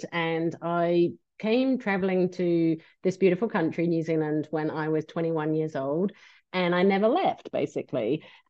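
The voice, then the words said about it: English accent. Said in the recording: “I'm English, as you can probably tell from the accent”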